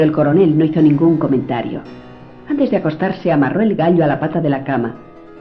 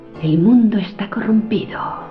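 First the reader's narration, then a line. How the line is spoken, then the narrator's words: Murmured. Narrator (Spanish): murmuró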